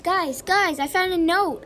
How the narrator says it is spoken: I shouted

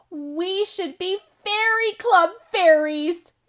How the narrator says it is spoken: Emma squealed

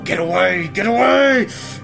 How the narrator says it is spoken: you feel your body gripped in fear and terror, and your beast begins to roar

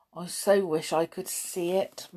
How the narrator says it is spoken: murmured Robin

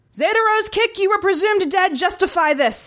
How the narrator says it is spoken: his former commanding officer shouted

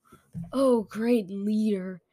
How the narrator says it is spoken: her words were slurred and slow

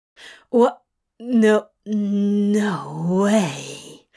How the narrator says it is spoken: he breathed

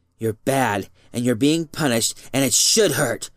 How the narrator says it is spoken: said furiously

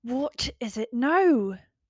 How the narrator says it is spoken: couldn't hold in my rage any longer and snapped

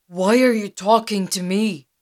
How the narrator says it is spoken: said

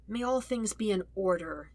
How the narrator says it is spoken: murmurs to himself

